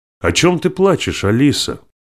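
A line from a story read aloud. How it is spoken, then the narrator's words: Sharp question across balcony. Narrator (Russian): резко спросила Дженни сестру через балкон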